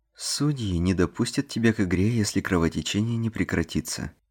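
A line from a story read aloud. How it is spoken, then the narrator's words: Calm, unhurried. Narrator (Russian): спокойно ответила Эбби, не думая торопиться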